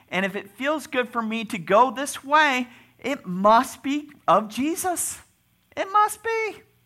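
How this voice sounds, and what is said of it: Voice rising higher in pitch. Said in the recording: “my voice is getting higher”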